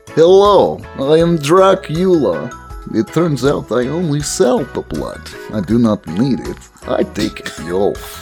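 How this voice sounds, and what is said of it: Dracula-style vampire accent. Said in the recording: “I know the name and the accent may confuse people.”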